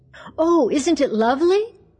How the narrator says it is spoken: cried Mabel

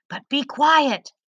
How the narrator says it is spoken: Leto whispered

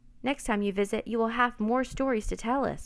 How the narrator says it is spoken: Will said

